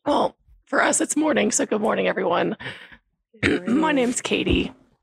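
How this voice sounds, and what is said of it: Raspy, hoarse voice. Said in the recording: “This beautiful raspy voice ... laryngitis”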